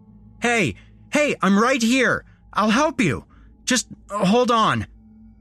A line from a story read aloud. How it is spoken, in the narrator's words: I shouted